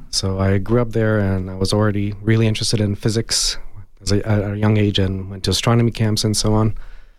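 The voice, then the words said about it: Slight Hungarian accent. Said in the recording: “I have a little bit of an accent ... I was born and raised in Hungary”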